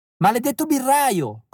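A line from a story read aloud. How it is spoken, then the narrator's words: Keeps yelling. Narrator (Italian): continua a urlare Ottilie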